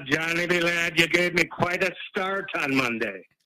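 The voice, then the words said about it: Put-on accent. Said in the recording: “I like that accent ... It's a new one”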